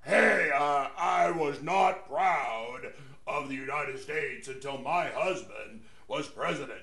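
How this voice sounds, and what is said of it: Imitates another person's voice. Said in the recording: “That's an improper impersonation. ... Yeah, that's a little closer.”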